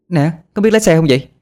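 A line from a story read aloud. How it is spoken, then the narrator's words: Pained shouting. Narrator (Vietnamese): Á Lan đau đớn la hét lên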